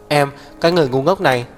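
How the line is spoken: Breathless emotional speech. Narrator (Vietnamese): Hắc Viêm Triệt gắt gao ôm lấy cô, thở hổn hển giống to

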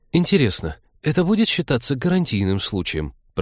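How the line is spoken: Mumbled to break silence. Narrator (Russian): пробормотал Вениамин, просто чтобы не молчать в полутьме

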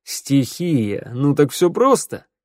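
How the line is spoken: Laughing crow. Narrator (Russian): рассмеялся ворона

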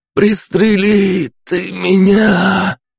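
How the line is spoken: Pleading. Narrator (Russian): умоляюще просил он

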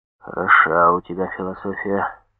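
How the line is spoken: Muttered. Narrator (Russian): пробормотал комиссар

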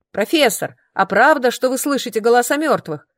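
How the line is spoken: Shout from the desks. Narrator (Russian): выкрикнул кто-то из-за парт

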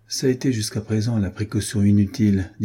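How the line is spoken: Plain. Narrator (French): dit Franz

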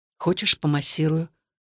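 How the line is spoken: Whispered question. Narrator (Russian): шепотом спросил Александр

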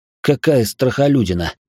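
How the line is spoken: Curious muttering. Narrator (Russian): пробормотал я, с интересом разглядывая фигурку

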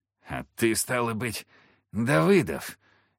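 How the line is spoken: Hoarse wheeze from floor. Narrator (Russian): прохрипел с пола Емельян

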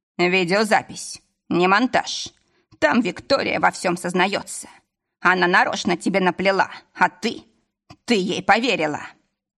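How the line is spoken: Accusing tone. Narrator (Russian): Завершил обвиняющим тоном

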